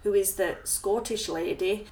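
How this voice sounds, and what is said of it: Put-on Scottish accent. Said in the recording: “How's my Scottish accent there?”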